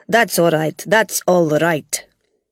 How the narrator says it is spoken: Gog said quickly

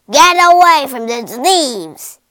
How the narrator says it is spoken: he roared

